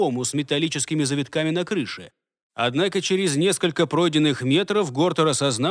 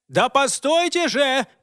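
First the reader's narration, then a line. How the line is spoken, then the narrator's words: Shouting at full voice. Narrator (Russian): кричал он во весь голос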